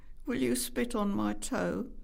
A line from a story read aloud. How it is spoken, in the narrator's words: said Nicky desperately